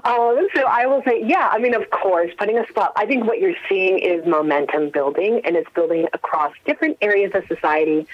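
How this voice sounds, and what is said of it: American accent. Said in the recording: “you can tell from my accent, I'm an American”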